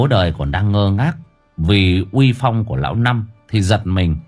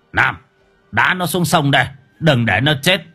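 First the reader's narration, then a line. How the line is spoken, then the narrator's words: Shout. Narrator (Vietnamese): Lão Năm quát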